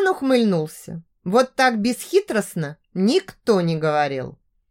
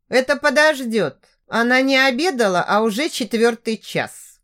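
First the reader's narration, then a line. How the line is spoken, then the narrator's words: Grumbled. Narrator (Russian): пробурчал Лоу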